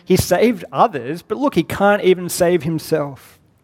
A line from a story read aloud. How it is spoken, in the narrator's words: Laughter of those around him saying